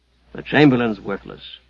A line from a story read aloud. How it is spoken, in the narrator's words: grunted Hugh